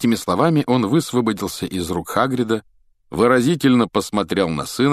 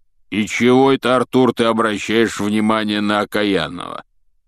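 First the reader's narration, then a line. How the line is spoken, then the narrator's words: Grumbling. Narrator (Russian): пробурчал Хагрид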